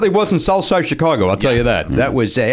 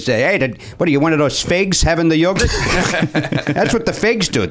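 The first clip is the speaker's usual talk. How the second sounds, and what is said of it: Exaggerated Chicago accent. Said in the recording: “You just pronounce it funny... with, with an accent... That's how the Chicago... said... it.”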